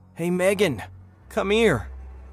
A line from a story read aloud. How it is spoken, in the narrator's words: I shouted, my voice trembling with a mix of relief and confusion